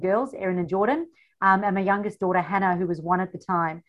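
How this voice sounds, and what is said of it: South African accent. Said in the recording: “You have an accent like I do... so yes, the funny accent. I come from South Africa”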